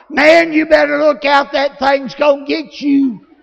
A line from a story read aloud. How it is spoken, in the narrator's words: I hollered